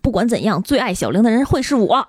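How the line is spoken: Drunken loud shouting. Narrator (Chinese): 姑姑就有点醉了 冲着小玲的父母大声喊

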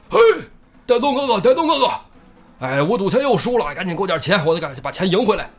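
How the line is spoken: Big man shouting. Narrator (Chinese): 一个大汉，进屋就喊

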